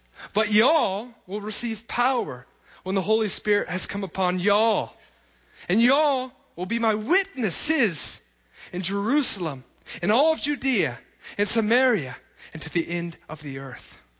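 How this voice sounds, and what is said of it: Put-on Texan accent. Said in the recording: “I'm going to read it with a great Texan accent”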